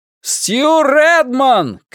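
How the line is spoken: Shout into darkness. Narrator (Russian): крикнул он в темноту

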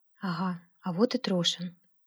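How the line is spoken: Quiet. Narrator (Russian): тихо сказал Алексей

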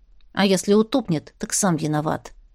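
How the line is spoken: Very quiet remark. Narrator (Russian): под конец бросила Марьяна, но сделала это так тихо

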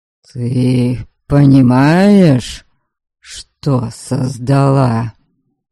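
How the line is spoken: Hoarse. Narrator (Russian): Хрипло сказал он

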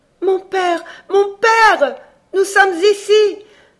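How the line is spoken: Crying out. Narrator (French): s'écria Alice

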